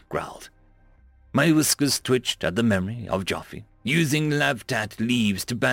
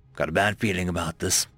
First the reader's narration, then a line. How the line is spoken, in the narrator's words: I muttered